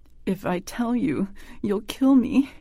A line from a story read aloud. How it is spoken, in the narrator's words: he whimpered